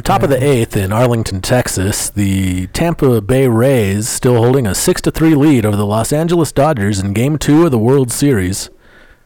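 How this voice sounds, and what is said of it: Old radio sports announcer voice. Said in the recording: “sports announcer voice ... like an older radio”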